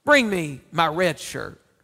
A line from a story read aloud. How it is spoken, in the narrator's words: Once more, the captain calmly responded